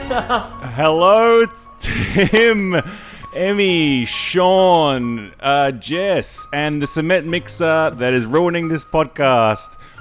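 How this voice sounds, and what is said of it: Excited yelling. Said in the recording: “you have a microphone. Why are you yelling? ... Oh, sorry. I get excited.”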